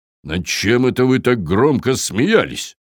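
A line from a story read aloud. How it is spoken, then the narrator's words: Menacing Viking question. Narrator (Russian): грозно поинтересовался викинг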